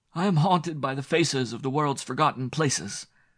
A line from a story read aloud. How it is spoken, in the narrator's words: he cried aloud impetuously